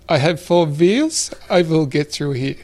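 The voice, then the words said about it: Strong German accent. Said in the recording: “with his very strong German accent”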